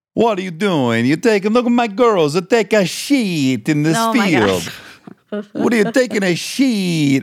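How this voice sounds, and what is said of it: Exaggerated put-on Italian accent. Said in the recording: “We're in Italy ... I'm going crazy with the accent”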